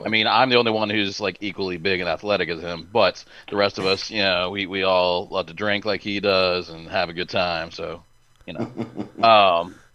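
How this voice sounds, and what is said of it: Sarcastic delivery. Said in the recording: “I am being sarcastic”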